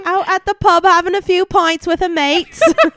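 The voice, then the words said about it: Weak attempted British accent. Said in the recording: “my attempt at sounding British... Did it work?... No... try it again with an actual accent... I feel like you wanted to go Irish”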